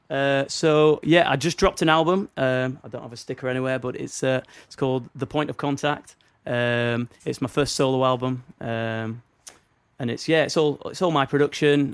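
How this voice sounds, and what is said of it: Northern English accent. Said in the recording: “with my accent ... Northern English hip hop drops”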